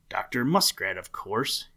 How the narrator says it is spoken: answered the voice

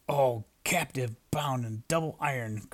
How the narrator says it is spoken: cried the phantom

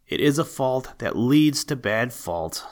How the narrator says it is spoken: said his mother gravely

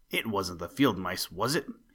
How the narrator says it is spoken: He snarled

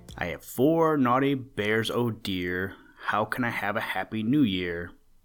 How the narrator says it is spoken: Old Mother Bear sighing

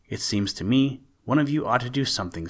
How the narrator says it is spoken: said he

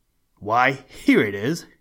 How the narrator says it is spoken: exclaimed

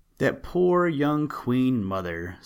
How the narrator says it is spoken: sighed the tender-hearted worker

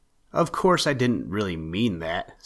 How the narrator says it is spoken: said he

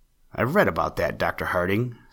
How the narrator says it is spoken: said Mr

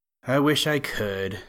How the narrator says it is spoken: sighed Peter

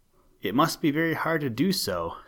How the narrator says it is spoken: said their teacher

